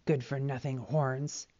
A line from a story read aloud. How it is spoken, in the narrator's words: he grumbled